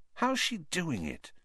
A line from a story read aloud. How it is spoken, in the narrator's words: Ron muttered to Harry